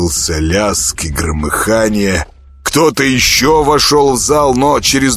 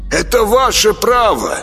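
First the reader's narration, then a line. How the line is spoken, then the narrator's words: Shouting into darkness. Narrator (Russian): крикнул куда-то в темноту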